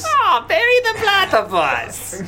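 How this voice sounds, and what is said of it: Put-on cartoonish German accent. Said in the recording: “I'm not good at doing his German accent ... kind of passable as a German accent ... You're trying to get your German accent from Doofenshmirtz ... That's better”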